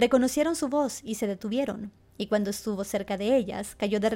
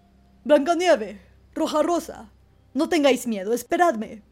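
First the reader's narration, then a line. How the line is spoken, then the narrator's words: Bear shouting. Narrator (Spanish): el oso les gritó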